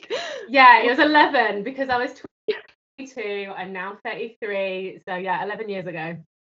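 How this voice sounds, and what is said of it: British accent. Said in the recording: “that gorgeous accent,⟧ she's joining us from the UK”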